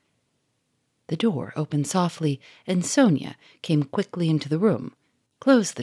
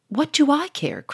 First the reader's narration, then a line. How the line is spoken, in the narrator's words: cried Sonia